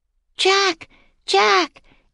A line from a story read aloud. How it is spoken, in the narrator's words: Annie shouted